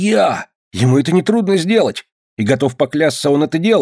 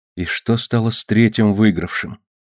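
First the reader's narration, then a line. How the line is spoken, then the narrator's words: Whispered. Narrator (Russian): прошептала Ева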